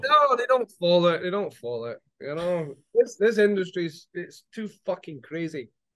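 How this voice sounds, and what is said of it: Scottish accent. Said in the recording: “I love your accent, man. A Scottish accent's got to be like in the top three for me.”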